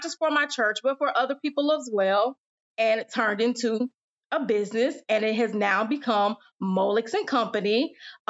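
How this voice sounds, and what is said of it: Southern twang accent. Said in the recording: “the twang in my voice. So I do live in the South.”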